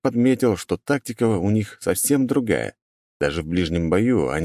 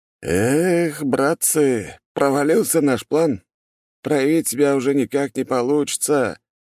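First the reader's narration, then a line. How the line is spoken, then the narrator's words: Frustrated sigh. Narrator (Russian): раздосадованно вздохнул один из бойцов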